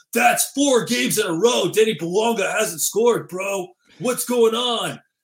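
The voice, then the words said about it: Put-on Southern California regional accent. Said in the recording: “Is that a 909 accent right there? ... Maybe it's more like a 951 accent”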